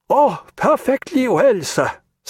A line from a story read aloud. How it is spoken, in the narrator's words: said Jagiello, laughing